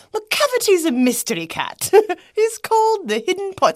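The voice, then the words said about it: Really bad fake accent. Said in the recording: “With a really bad fake accent.”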